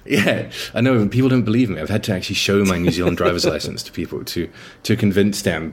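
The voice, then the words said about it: British accent. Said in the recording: “I sound British ... Managed to not pick up the accent.”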